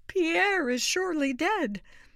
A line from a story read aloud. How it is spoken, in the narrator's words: cried